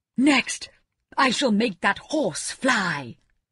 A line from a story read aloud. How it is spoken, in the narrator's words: cried the king